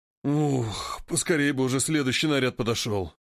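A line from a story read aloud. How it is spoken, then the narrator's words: Guard's grumble. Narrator (Russian): проворчал стражник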